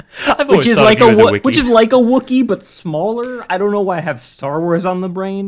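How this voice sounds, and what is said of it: Accent blurring V and W sounds. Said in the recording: “it was unclear with my accent whether or not I was saying I was sure I was a Wiki”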